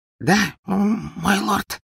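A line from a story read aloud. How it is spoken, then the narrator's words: Timid breathy reply. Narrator (Russian): выдохнул маленький человечек, съежившись в своем кресле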